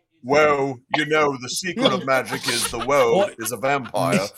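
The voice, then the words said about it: Alan Moore impression. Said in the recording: “the Alan Moore voice”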